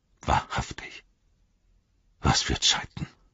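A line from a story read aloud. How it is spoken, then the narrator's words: Murmur. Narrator (German): murmelte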